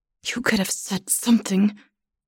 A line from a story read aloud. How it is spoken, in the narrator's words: she says through gritted teeth